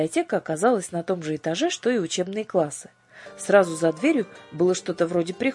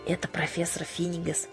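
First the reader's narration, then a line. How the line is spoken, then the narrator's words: Whisper. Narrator (Russian): шепнула Дара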